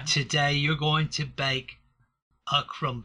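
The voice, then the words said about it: Exaggerated mock British accent. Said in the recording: “Well, that's a pretty offensive accent, mind you. ... He's mocking them, he is.”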